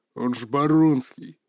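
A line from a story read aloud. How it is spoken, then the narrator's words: Gruff mutter. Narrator (Russian): буркнул один из мужиков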